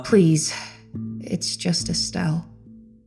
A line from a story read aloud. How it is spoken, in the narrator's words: she said softly, seemingly far less vexed by our presence than she had been minutes before